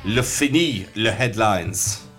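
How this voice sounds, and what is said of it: Put-on French accent. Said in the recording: “that was a fantastic French accent attempt”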